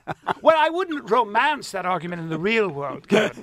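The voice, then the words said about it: Posh, highly educated English-sounding accent. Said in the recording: “speaking in an English accent or I'm just I'm highly educated, like William F. Buckley”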